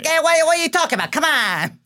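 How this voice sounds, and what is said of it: Exaggerated put-on New York accent. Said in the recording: “He's doing like a standard like improv show version of a New York accent.”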